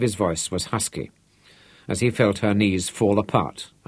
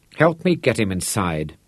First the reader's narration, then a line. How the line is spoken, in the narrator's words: she said, and her voice was shaky